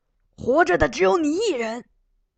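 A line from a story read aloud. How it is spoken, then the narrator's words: Shouting. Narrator (Chinese): 那人在马上冲邢德喊道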